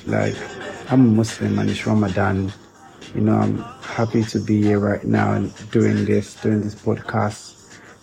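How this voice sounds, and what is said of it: Tired, strained voice. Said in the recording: “My voice is kind of crooked right now because, you know, I'm tired, I'm exhausted”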